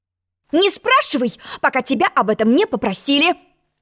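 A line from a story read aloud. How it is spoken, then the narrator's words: Sharp interruption. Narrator (Russian): Резко перебила ее черная королева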